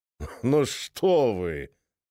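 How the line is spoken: Laughing into thick cough. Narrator (Russian): рассмеялся писатель, и его смех перешел в густой кашель

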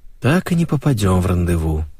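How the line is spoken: Heavy sigh. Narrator (Russian): тяжко вздохнул Леша

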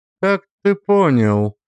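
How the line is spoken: Even, guarded tone. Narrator (Russian): спросила она ровным тоном, стараясь не выказать внутренней настороженности

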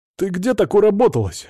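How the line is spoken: Exclaiming. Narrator (Russian): воскликнул Свят

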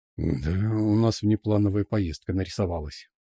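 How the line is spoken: Exhaled. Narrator (Russian): выдохнул

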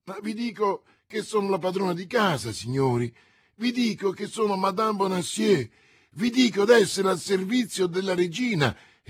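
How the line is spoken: Distressed woman exclaiming. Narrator (Italian): esclamava la disgraziata donna

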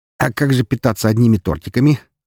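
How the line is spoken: Friend laughing. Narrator (Russian): рассмеялся друг

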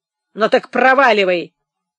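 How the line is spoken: Rough reply. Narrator (Russian): грубо ответила Харитина

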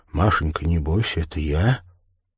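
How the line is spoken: Said quietly. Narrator (Russian): негромко сказал

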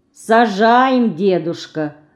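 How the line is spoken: Disappointed sigh. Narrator (Russian): разочарованно вздохнула Динка

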